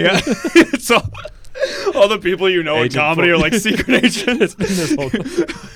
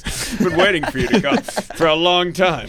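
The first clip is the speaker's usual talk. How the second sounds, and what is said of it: Robot voice. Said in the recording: “robot voice”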